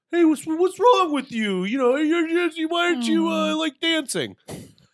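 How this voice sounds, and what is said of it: Imitates another person's voice. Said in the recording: “That's a really good impression. ... did you get a recording of me? ... That sounded fantastic.”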